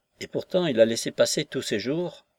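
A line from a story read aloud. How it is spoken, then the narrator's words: Pensive tone. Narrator (French): dire, d'un ton pensif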